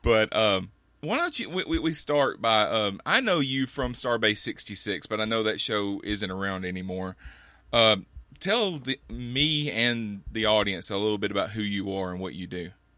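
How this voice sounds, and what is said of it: Alabama Southern US accent. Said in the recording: “I love your accent. I know you think you don't have one, but I'll tell you, it's great. ... My Alabama accent.”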